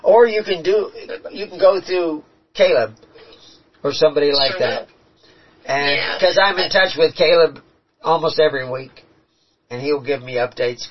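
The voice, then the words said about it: Hoarse, strained voice. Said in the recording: “Sometime when I'm not losing my voice,”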